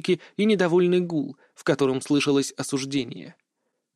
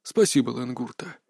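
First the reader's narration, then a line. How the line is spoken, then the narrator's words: Tired. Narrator (Russian): устало сказал Лэн Дунте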